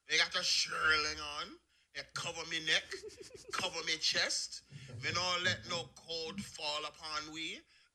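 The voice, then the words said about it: Put-on Jamaican patois accent. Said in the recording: “with a fucking patois accent”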